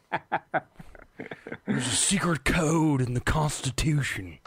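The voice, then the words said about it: Terrible impression of another person's voice. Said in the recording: “my terrible Nicolas Cage impression. ... You sound like Andy Samberg doing Nicolas Cage.”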